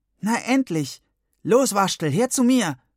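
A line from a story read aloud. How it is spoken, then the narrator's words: Calling out. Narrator (German): rief Gwendolin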